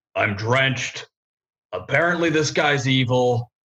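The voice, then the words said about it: Put-on character voice. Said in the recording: “character voice”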